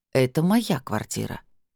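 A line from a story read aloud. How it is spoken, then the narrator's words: Quiet and firm. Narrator (Russian): тихо и твердо сказала я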